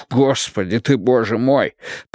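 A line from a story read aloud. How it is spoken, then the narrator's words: Groan. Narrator (Russian): простонал Вудвард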